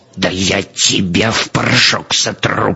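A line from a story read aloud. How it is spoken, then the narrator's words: Furious words through gritted teeth. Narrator (Russian): процедил разъяренный Клейн-Михель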